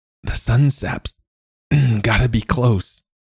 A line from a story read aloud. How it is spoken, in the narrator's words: rasped